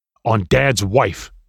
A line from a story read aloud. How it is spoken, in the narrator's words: my friend said firmly